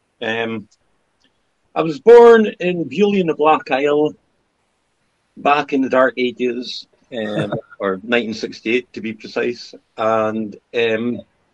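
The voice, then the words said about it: Scottish Highland accent. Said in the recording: “That sounds like a Highland accent you've got there ... No, it is indeed.”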